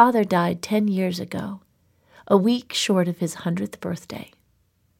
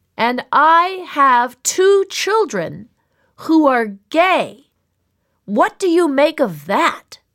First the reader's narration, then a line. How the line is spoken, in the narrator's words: him shouting